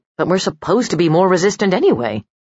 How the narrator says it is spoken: grumbled

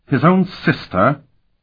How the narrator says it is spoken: Bavior exclaimed

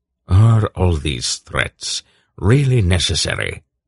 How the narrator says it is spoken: Belgareth asked wearily

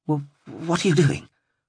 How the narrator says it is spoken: stammered, unable to fully bite back on her fear

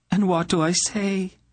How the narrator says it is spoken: Eileena begged of her

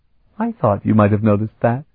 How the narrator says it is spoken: she said, joining in their laughter

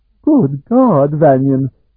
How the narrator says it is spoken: exclaimed when he saw the Pandian preceptor

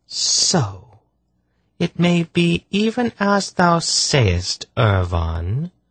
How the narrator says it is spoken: almost purred

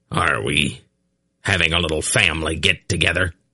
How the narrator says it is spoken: Belden asked harshly

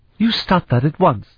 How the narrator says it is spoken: she exclaimed

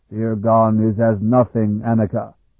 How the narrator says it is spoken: he rumbled in an almost colloquial form of speech

